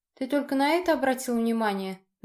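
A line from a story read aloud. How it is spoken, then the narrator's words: Mocking question. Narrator (Russian): насмешливо спросила девушка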